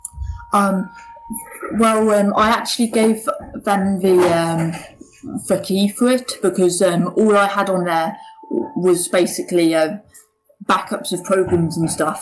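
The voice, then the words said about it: British accent from Cornwall. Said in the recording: “you have a little bit different of an accent ... you're obviously not from the United States ... I live in the UK, in Cornwall.”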